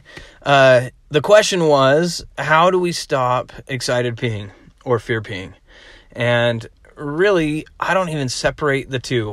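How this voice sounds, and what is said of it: Rough, unwell-sounding voice. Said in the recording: “sorry about my voice ... if I cough a little bit, I'm fighting off a little something ... my voice is a little bad”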